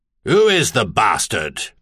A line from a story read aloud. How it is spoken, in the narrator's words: the Duke demanded, and his tone was even harsher than his expression